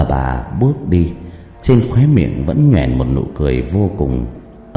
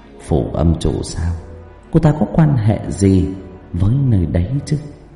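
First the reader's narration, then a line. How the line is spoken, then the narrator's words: Suspicious muttering. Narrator (Vietnamese): nghi ngờ lẩm bẩm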